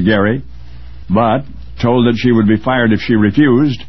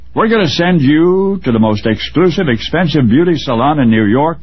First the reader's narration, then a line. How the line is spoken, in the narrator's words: they announced triumphantly